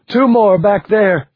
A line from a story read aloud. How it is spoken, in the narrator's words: she screamed